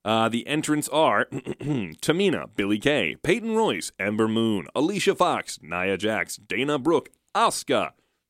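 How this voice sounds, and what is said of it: Announcer voice. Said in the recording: “announcer voice”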